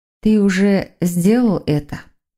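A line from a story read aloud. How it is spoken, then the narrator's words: Mysterious drawl. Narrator (Russian): протянула Воронцова загадочным голосом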